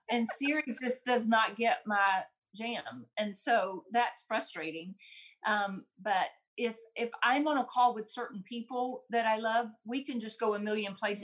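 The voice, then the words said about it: Southern American accent. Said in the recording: “I've got just that good old Southern slang ... she was understanding your accent”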